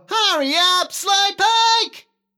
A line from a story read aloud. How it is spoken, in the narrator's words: he shouts to Wilbur